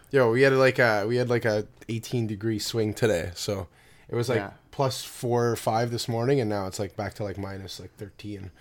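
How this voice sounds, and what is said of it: Sick-sounding voice. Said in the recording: “I'm a little sick today. I don't know if you can hear it in my voice”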